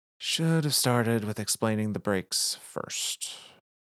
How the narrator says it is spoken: Rem sighed

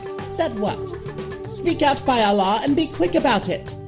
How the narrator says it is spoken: The eunuch burst out a laughing and asked

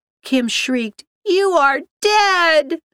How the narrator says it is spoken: Mary whimpered

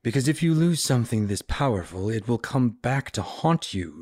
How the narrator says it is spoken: she hissed

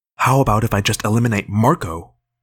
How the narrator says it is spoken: I growled

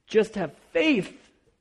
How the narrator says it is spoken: they said

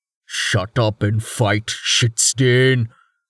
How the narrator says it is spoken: Thrast snarled

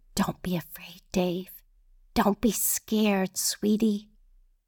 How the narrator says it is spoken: in Dave's ear and whisper

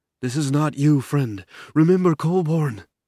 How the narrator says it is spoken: Sarkeesian called out

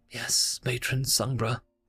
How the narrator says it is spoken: said softly

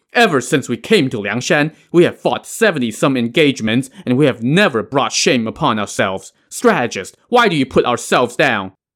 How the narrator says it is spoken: But that remark riled up Lin Chung the Pantherhead, who scoffed

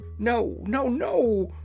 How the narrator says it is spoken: cried the maid in reply

